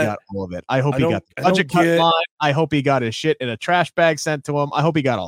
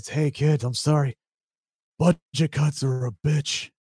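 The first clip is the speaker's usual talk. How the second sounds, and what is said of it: Imitates another person's voice. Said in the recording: “Terrible Johnny Ace impersonation.”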